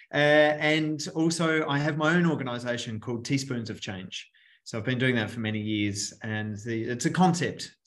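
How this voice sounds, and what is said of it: Australian accent. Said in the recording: “from my beautiful accent, I'm from Australia”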